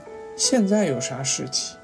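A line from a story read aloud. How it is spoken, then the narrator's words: Soft. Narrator (Chinese): 护生轻声说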